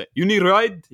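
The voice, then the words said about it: Put-on Saudi Arabian accent. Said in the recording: “I guess I could do his accent.”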